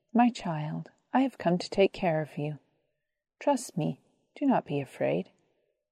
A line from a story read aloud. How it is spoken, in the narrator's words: said gently